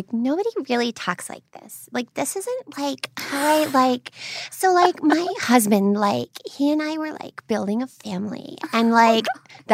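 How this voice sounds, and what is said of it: Imitated high-pitched baby voice. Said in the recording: “she also talks in a baby voice... that sounds contrived... that's her voice... up it and sound like a, like maybe like a sex baby”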